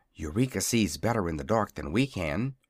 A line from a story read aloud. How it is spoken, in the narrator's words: whispered Dorothy